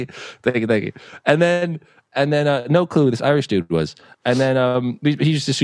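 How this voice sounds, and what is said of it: Usual voice. Nothing is said of it.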